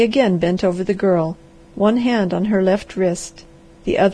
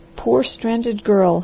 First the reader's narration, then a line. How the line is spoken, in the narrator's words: he muttered